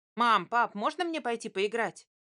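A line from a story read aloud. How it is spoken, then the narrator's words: Excited question. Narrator (Russian): взволнованно спросил он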